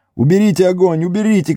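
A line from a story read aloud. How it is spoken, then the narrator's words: Shouting. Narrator (Russian): кричал Мэри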